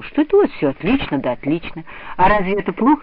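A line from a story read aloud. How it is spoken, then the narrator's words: Laughing. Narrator (Russian): засмеялась Лида Зорина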